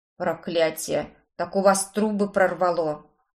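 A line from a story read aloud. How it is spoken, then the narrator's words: Gasping exclamation. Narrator (Russian): Охнул он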